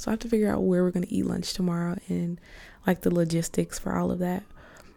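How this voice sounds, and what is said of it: Tired-sounding voice. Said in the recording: “I don't know if you can hear it in my voice, but I'm just like so tired”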